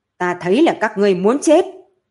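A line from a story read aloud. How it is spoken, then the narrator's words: Urgent loud woman's voice. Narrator (Vietnamese): có chút gấp gáp, cô liền lớn tiếng nói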